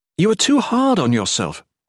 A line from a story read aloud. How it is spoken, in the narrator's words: Volney exclaimed